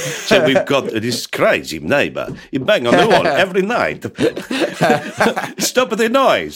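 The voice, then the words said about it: Put-on Italian accent. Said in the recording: “What a lovely Italian accent that was. I like that. That was really good... You know how to do the voices.”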